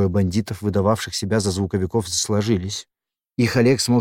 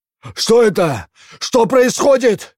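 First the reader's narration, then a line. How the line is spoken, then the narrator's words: Shouting. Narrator (Russian): закричал Коммерс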